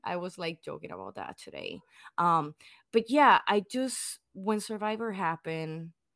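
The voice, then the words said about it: Non-native English accent. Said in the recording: “English is not my second language, as you might all can hear. Um, I still have an accent, which is not as bad as my brothers”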